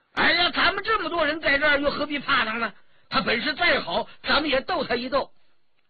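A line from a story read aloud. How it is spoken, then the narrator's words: Loud exclamation. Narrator (Chinese): 张晋叫了起来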